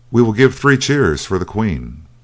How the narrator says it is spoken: cried

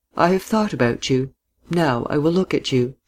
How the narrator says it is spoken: she said quietly, smiling

